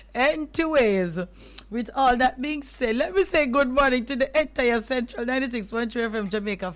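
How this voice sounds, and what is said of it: Sick, flu-affected voice. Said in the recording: “my voice is sounding like this, though... I'm sounding like this... kind of catching a flu”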